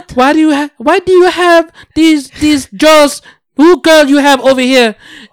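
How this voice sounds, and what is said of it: Put-on unidentified accent. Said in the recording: “I don't know what kind of accent I'm doing right now.”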